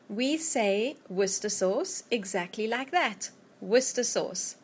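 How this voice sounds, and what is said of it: South African accent. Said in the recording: “my South African accent ... I'm originally from South Africa”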